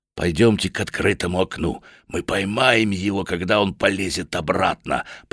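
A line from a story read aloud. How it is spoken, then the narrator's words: Whisper. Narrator (Russian): прошептал Ластрейд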